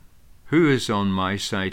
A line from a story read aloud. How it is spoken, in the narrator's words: he called out